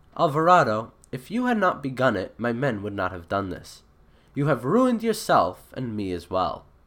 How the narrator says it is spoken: Montezuma sadly replied

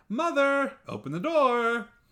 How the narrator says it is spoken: ran in front and shouted

